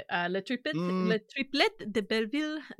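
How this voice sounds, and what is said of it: Poor put-on French accent. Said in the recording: “doing a terrible impression of a French person”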